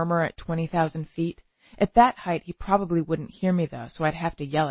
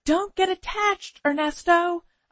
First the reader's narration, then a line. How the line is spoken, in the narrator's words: yell